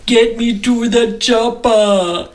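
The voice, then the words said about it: Arnold Schwarzenegger impression. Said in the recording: “That was another Arnold Schwarzenegger one, if you didn't pick up on the accent.”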